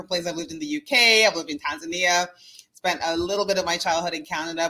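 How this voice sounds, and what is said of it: Slight accent. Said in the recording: “we hear a little something in your voice. ... We hear a little accent.”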